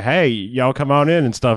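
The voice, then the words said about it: Weird Foghorn Leghorn-style drawl. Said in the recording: “he's doing a real weird accent in this ... a weird like Cajun mix ... be like Foghorn Leghorn ... this is a weird accent for you”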